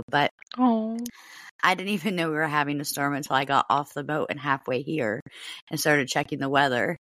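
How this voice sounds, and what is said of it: Strained, fading hoarse voice. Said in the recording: “my throat is going. My voice is leaving too.”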